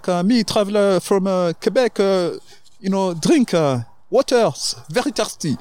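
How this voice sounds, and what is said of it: Exaggerated fake broken-English accent. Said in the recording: “exaggerate my English accent... the fakest accent you can do.”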